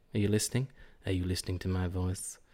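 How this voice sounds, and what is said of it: Sexy, seductive voice. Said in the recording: “That's my sexy voice.”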